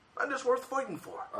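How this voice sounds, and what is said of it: Put-on Scottish accent. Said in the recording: “Is that a Scottish accent?”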